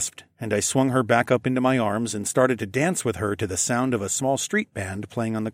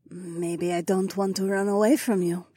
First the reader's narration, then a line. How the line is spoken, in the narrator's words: she murmured